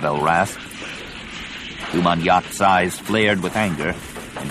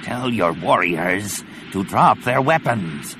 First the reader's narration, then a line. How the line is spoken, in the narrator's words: the Barabel rasped